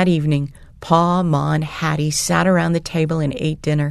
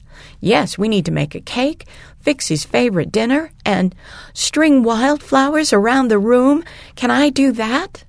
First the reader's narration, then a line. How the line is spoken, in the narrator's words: Ma laughed